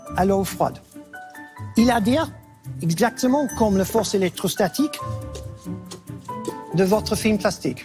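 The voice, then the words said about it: Non-native accent in French. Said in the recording (French): “il n'est pas français. Donc tu vois qu'il a vraiment un accent ... malgré son accent”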